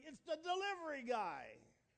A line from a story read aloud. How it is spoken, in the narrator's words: you're hollering